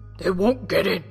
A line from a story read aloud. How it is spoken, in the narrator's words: the captain growled